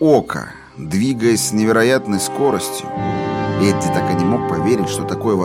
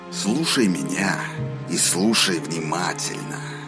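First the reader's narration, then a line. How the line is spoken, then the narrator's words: Through gritted teeth. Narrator (Russian): процедил Роланд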